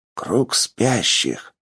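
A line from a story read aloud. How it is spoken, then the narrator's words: Man's whisper. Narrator (Russian): мужчина зашептал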